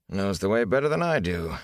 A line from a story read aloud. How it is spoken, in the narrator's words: he chuckled